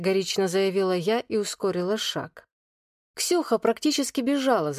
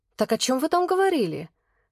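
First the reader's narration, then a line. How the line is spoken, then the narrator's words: Impatient exclamation. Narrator (Russian): Нетерпеливо воскликнула она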